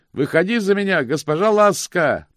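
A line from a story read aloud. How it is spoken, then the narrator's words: Shouting. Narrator (Russian): прокричал он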